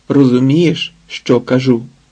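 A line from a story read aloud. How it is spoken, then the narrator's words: Stern question. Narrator (Ukrainian): запитав суворо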